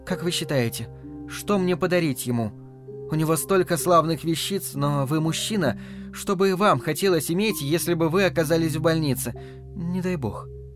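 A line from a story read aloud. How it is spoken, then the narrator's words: Warm, smiling. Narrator (Russian): добавила, ласково улыбнувшись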